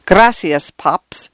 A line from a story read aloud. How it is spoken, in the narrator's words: she flew up at an infestation of the giggles